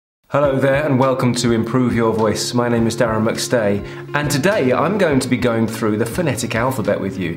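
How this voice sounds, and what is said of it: Standard English accent. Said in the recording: “my accent, which is an English accent... a standard English accent”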